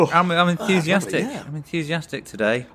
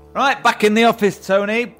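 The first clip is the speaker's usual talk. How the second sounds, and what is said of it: Loud shouting. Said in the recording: “That was a bit loud, wasn't it? Sorry for shouting at you there.”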